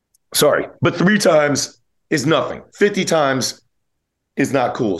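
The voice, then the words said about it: Rough, messed-up sounding voice. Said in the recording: “That's why my voice is like kind of messed up.”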